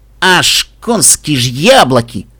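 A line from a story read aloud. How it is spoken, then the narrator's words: Startled grumble. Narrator (Russian): Вздрогнув, проворчал Каламити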